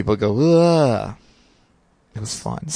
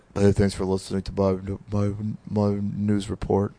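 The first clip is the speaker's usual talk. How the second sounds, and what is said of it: Imitates another person's voice. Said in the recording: “my Nathan impression”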